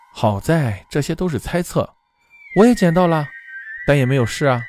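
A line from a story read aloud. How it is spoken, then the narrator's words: Sighing. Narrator (Chinese): 子强叹口气说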